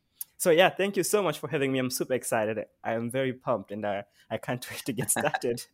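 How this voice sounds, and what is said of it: South African accent. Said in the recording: “you've got this South African accent”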